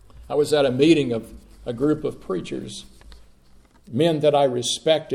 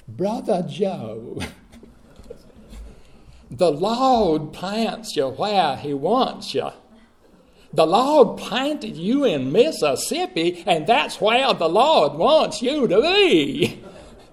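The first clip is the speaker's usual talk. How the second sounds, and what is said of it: Very deep Southern accent. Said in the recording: “in a very deep southern accent”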